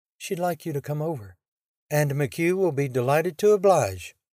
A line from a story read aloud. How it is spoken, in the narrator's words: Loris purred